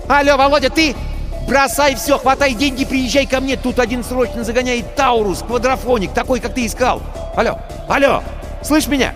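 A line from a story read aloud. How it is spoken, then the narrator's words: Cheerful excited yelling over phone. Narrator (Russian): В трубке весело и возбужденно завопили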